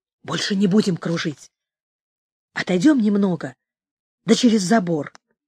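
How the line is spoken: Whispered. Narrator (Russian): он прошептал

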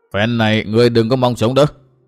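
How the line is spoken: Menacing growl. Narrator (Vietnamese): Hỏa Vân quái Phật ... gằn giọng nói

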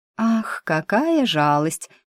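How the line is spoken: Unbothered drawl. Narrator (Russian): нисколько не расстроившись, протянула она

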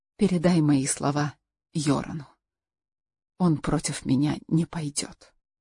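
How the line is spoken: Whisper. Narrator (Russian): Карл Аксель прошептал

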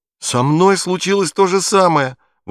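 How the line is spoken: Joyful boy's exclamation. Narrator (Russian): воскликнул Бруно, радуясь тому, что он не единственный мальчик на свете, которого вынудили уехать из дома

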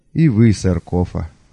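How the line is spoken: Mock sigh. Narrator (Russian): притворно вздохнул я

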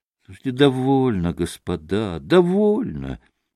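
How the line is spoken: Exhausted voice. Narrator (Russian): измученным голосом порешил он

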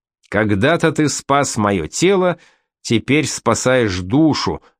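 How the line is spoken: Plain. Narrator (Russian): сказал он священнику

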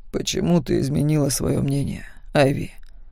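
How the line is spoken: Soft, tender question. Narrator (Russian): тихо спросил Макс, нежно

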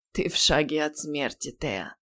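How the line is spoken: Quiet warning. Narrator (Russian): тихо предупредил он наставницу

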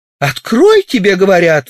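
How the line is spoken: Exclaiming. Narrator (Russian): воскликнула Римма

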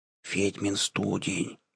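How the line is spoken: Whispered. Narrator (Russian): прошептал Айгон

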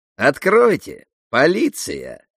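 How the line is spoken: Stern voice. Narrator (Russian): произнес Карлсон строгим голосом

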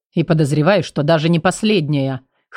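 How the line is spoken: Rector snorting overhead. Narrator (Russian): хмыкнул над моей головой ректор

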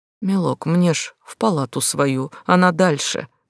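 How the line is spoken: Old man pleading. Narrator (Russian): взмолился старик

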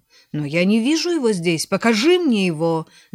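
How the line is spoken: Irritated shout. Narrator (Russian): закричал столяр раздраженно

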